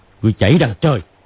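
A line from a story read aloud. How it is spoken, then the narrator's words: Shouted. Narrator (Vietnamese): Hoắc Đô quát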